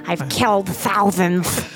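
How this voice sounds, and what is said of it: Imitates another person's voice. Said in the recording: “That's a good impression there.”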